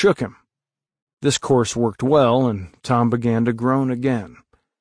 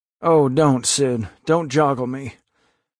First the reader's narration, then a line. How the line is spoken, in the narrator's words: Tom moaned out